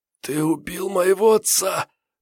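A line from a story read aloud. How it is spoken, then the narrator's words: Hoarse. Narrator (Russian): прохрипела Ноэль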